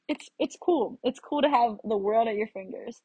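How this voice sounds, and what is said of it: American accent. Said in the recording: “they could just tell from my accent ... she's from the United States ... I can tell by your accent”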